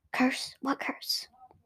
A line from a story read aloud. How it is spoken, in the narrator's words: whisper